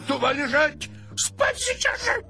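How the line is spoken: Shouting. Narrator (Russian): все-таки закричал на нее

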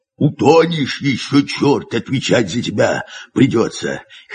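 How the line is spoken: Hoarse rasp. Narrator (Russian): хрипит Герасим

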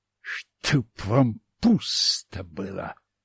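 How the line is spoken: Muttered. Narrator (Russian): пробормотал я

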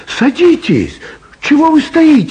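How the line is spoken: Cheerful shout. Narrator (Russian): весело крикнула Элочка

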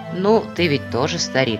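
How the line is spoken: Plain. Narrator (Russian): ответил старшина

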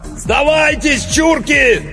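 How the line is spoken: Shouted through megaphone. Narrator (Russian): заорал Иванов в мегафон

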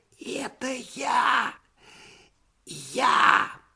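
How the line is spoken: Trembling muffled whisper. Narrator (Russian): послышался из-под дивана дрожащий шепот

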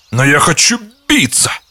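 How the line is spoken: Exclamation. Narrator (Russian): воскликнул рыцарь

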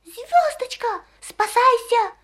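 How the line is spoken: Desperate, half-choked shout. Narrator (Russian): отчаянным голосом крикнул ей ученый Скворец, чуть не подавившись крапивницей

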